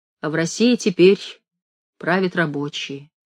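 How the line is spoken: Quiet, big man's voice. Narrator (Russian): Вахтенный боцман сказал тихо, огромный тихий человек

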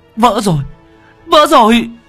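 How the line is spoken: Terrified shriek. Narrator (Vietnamese): Cô Thao rú lên kinh hoàng

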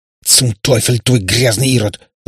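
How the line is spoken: Hissing woman. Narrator (Russian): зашипела австриячка

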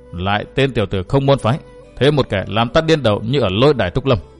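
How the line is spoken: Dazed muttering. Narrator (Vietnamese): Diệp Quế Trang cũng ngẩn ngơ lẩm bẩm

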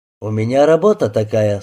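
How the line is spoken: Calm remark. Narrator (Russian): спокойно заметил Рябинин

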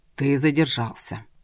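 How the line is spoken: Displeased tone. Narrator (Russian): недовольным тоном произнес старший евнух

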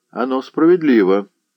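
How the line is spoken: Plain. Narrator (Russian): сказал Кушель

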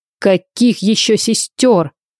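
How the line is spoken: Roared. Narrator (Russian): взревел Райден

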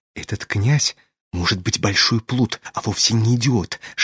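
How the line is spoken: Whisper. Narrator (Russian): шепнула она Аглая

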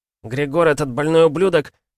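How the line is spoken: Shouting telepath. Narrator (Russian): закричал один из пришедших в себя телепатов

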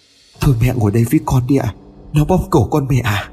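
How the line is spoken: Trembling voice. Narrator (Vietnamese): Liên nắm chặt tay cổ mẹ, nói với giọng run rẩy

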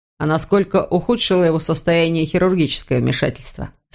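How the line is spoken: Plain. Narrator (Russian): спросил Иван

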